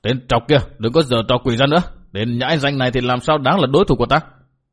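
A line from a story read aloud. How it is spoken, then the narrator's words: Furious shout. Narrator (Vietnamese): các đà tố mặt đầy vẻ phẫn nộ, quát bảo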